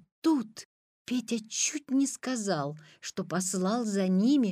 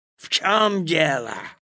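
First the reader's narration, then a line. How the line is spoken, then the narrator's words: Angry question. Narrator (Russian): злобно спросил он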